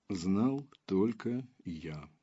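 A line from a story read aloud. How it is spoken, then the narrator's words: Plain. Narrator (Russian): сказал Железовский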